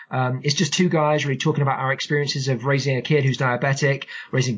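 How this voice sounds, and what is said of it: Funny accent. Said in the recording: “this funny accent”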